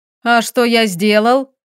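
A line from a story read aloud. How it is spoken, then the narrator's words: Laughing question. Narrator (Russian): Муж хохотнул в голос и поинтересовался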